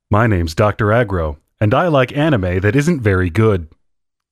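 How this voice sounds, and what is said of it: Exaggerated impression of Dr. Agro. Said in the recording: “a really, really racist impression of Dr. Agro ... That's a stunning impersonation. ... you sound exactly like him. ... the best Aggro impersonation I've ever heard.”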